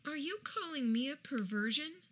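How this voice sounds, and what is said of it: Sweet good-girl voice. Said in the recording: “still in her best good girl voice”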